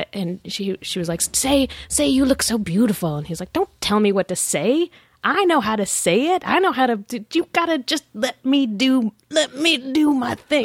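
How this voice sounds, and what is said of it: Bad imitation of another person's voice. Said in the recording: “that bad Cosby impersonation”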